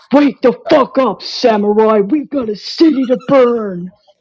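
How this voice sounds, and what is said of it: Impression of Keanu Reeves' Cyberpunk character. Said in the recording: “an impression of a character that he plays as in Cyberpunk ... That was pretty good, actually.”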